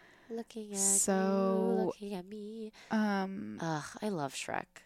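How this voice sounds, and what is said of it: Usual voice. Nothing is said of it.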